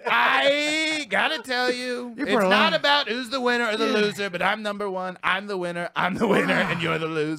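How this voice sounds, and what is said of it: Imitates another person's voice. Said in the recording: “your Trump impression is way better than mine... You put a lot of passion in here.”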